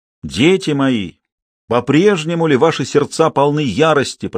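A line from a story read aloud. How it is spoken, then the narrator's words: Sung, resonant and clear. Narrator (Russian): пропел Базо звучным чистым голосом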